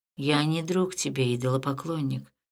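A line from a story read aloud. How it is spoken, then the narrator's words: Young man, calm reply. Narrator (Russian): спокойно ответил юноша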